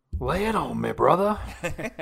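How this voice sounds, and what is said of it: Imitates another person's voice. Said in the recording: “I'm trying my best. I'm working on that Josh impression.”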